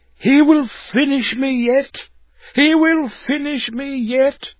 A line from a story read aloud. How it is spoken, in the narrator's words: wild with excitement, exclaiming